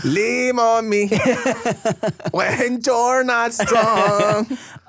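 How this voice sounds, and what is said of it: Put-on cholo accent. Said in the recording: “with the cholo accent”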